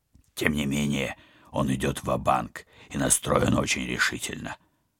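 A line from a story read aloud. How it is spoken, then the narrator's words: Grumbled. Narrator (Russian): проворчал Вадим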